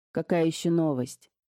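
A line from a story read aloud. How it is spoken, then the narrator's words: Displeased gruff tone. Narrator (Russian): спросил ее тогда Скамейкин своим излюбленным, недовольно грубоватым тоном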